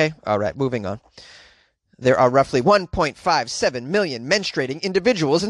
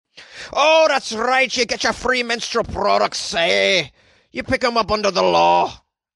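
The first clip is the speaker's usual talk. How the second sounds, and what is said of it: Put-on Scottish accent. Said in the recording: “How was that for a Scottish accent?”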